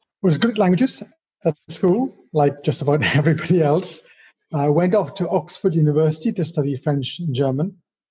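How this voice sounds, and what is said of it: Welsh accent. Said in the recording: “I was born in Wales, which is where my rather strange accent comes from”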